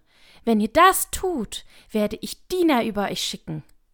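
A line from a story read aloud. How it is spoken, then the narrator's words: Screaming at full volume. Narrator (German): schrie so laut sie konnte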